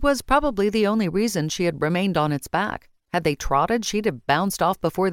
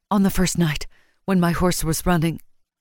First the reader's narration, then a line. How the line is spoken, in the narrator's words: she panted